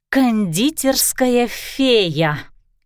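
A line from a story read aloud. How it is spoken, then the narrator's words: Angry puffing. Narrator (Russian): злобно пропыхтела Кристина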